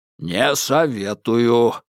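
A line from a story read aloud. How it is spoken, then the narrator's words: Distant booming drone. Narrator (Russian): прогудел Лангер из бара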